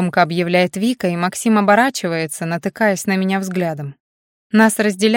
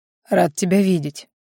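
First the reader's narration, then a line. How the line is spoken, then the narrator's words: Hoarse voice. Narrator (Russian): охрипшим голосом произносит он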